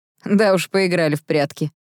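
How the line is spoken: Nervous snort. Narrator (Russian): нервно хмыкнул Кайл

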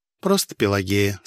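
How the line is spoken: Calm correction, fortune-teller. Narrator (Russian): спокойно поправила меня ворожея

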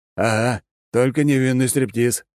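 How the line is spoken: Short laugh. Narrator (Russian): хохотнул Алекс

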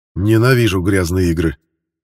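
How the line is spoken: Angry. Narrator (Russian): зло произнес Грен

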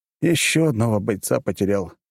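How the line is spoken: Sighing. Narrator (Russian): вздохнул я

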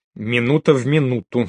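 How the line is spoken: Stern repetition. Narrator (Russian): строго повторил Рэмбо

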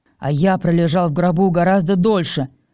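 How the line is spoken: Growling. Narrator (Russian): рыкнул Стил

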